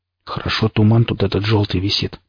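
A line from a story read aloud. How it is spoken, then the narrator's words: Muttered. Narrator (Russian): пробормотал Никита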